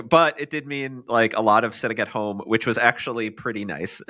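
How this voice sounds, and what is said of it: Sick-sounding voice. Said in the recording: “if you can tell from my voice, I did get sick.”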